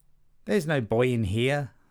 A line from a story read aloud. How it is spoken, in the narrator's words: the wife said